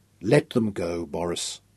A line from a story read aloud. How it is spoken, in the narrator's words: Nicholas advised him in a more reasonable tone of voice